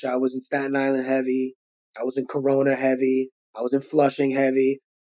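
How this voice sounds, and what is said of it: Brooklyn New York accent. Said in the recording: “my accent and my voice became city. Like I got a Brooklyn accent”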